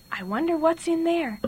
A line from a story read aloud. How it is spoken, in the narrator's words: Billy whispered